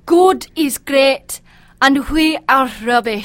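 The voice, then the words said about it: Scottish brogue. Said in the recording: “Can you say one more word, please, in that brogue? ... You know, I love the Scottish.”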